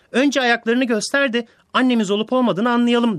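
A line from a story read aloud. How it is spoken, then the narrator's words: Young goats shouting together. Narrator (Turkish): Yavru keçiler bağırışmışlar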